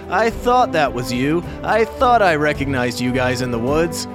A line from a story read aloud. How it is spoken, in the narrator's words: Dracius said in between bouts of laughter